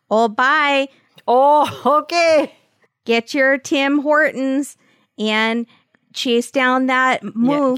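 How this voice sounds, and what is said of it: Put-on Canadian accent. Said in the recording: “You do do that accent very, very well.”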